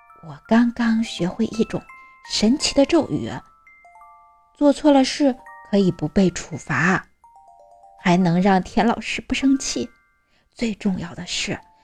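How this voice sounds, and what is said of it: Secretive low quiet voice. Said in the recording (Chinese): “故作神秘地四处看了看，小声说”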